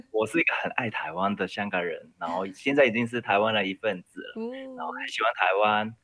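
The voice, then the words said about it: Hong Kong accented Mandarin. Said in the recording (Chinese): “我是一个移民台湾的香港人...你听我的那个口音”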